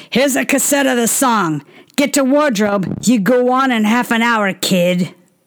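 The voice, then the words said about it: New York accent impression. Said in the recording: “channels Louis B. Mayer in ... New York accent”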